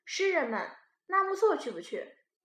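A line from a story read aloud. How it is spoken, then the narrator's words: Smiling invitation. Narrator (Chinese): 他笑笑的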